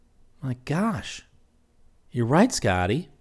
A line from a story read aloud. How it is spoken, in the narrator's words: he exclaimed